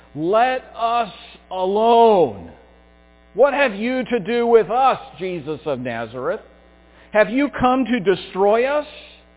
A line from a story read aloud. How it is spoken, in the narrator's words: he, the demon, cried out in a loud voice